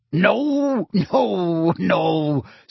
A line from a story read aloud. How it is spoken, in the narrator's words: said Hagrid, chuckling